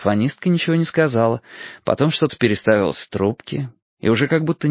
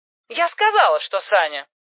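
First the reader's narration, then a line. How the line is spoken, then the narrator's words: Angry objection. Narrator (Russian): сердито возразила телефонистка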